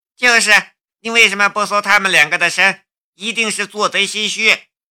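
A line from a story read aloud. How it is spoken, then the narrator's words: Angry shouting woman. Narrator (Chinese): 被徐浪侵犯的女兵嚷道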